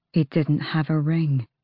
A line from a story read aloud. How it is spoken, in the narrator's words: Nox murmured